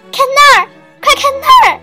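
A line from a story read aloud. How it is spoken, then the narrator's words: Shouting. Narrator (Chinese): 她喊道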